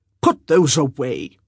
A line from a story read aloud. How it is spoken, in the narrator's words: the magistrate snapped